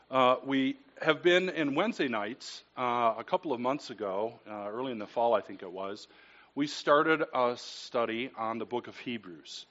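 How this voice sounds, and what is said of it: Voice strained by a cold. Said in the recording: “I have a cold, so we'll pray that my voice holds out”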